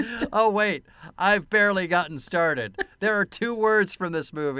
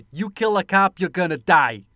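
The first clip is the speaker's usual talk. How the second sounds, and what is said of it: Imitated Brooklyn accent. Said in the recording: “your impression of his impression of a Brooklyn accent”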